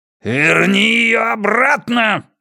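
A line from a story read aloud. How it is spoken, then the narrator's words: Angry growl. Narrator (Russian): гневно прорычал Хаскель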